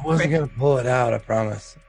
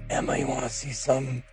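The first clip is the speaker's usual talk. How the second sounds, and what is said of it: Whispering. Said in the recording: “Whispering”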